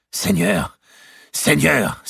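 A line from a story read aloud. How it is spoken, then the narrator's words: Exclamation. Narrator (French): s'écria Mao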